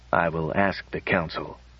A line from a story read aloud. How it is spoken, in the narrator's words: muttered Bly